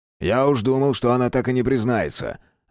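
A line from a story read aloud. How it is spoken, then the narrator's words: Grumble. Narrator (Russian): Обращаясь к Рудневу, проворчал Терентьев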